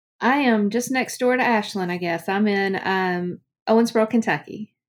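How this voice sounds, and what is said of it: Strong Southern US accent. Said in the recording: “very strong Southern accent”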